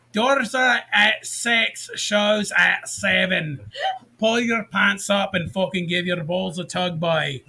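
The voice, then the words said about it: Put-on Scottish accent. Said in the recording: “switch accents. ... Scottish.”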